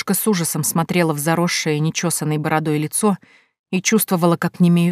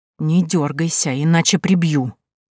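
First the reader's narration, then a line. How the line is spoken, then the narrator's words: Hissing threat. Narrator (Russian): незнакомец прошипел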